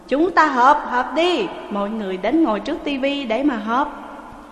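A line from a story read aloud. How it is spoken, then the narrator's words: Loud call. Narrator (Vietnamese): Quách Tử Phóng ... lớn tiếng gọi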